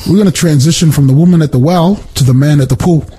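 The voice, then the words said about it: New Zealand accent. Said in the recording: “My Kiwi pool. Accent doesn't. Yeah, we miss out the L at the end.”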